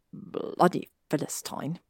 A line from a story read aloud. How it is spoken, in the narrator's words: Draco muttered